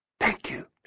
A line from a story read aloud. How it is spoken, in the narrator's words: whispered